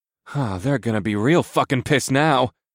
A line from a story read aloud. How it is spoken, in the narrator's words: I groaned